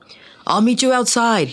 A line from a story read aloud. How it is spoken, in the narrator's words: he shouted from the other side of the door